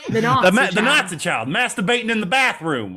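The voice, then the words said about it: Put-on Southern drawl. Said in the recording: “That's what the Southern drawl is for that sentence alone.”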